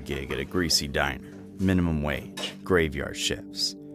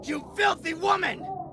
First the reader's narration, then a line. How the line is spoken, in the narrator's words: Henry yelled